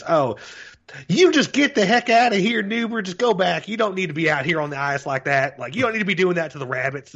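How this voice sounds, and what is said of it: Put-on Southern US accent. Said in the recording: “the color commentary guy ... southern accent ... it just sounds straight out of like Michael Waltrip from fucking NASCAR”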